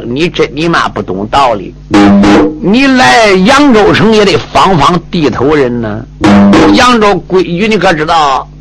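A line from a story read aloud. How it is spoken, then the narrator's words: Cold sneer. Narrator (Chinese): 这个小子冷笑一声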